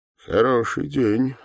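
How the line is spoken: Calm. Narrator (Russian): спокойно произнес один из них, что повыше

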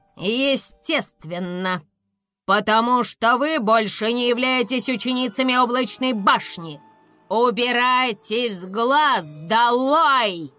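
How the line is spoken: Barked. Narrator (Russian): рявкнула директриса Гриффин

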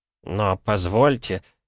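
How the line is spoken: Trembling voice. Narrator (Russian): дрогнувшим голосом произнес лакей

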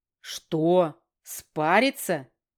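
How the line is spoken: Scoffing snort. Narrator (Russian): хмыкнул

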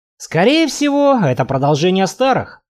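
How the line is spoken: Snorting. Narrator (Russian): хмыкнул я

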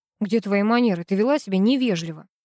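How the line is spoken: Angry. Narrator (Russian): папа сердито произнес

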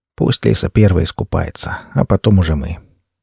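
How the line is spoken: Quiet, smiling. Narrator (Russian): Макс улыбнулся и тихо произнес

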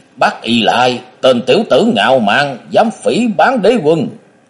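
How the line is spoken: Loud roar. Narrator (Vietnamese): Thạch Mộng cũng gầm lớn

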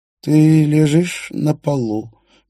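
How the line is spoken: Slow, calm voice. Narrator (Russian): медленно, спокойным голосом говорил Столь

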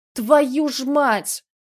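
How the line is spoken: Angry shout. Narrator (Russian): закричал Громов

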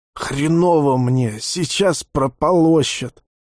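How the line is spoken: Wheezing. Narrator (Russian): просипел Леха

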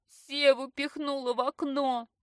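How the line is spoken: Sobbing bitterly. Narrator (Russian): Начинает горько рыдать

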